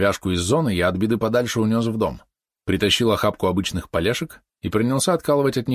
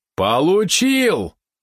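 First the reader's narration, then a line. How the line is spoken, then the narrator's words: Sudden yell. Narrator (Russian): внезапно заорал он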